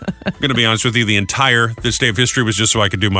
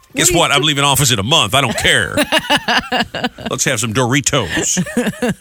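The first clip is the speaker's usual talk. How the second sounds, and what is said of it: Imitates another person's voice. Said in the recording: “my Bush impression”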